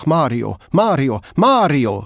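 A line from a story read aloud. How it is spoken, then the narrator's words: Calling out. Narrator (German): rief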